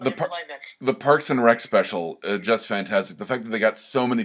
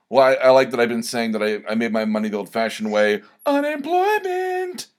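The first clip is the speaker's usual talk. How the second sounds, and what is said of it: Jean-Ralphio impression. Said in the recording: “my John Ralphio impression”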